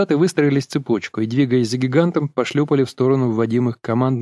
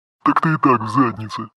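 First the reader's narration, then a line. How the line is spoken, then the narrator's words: Giant's roaring laughter. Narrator (Russian): захохотал гигант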